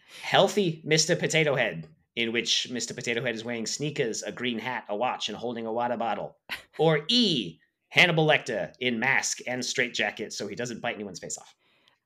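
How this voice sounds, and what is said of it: Put-on Boston accent. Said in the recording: “I'm going to do them all in a Boston accent now.”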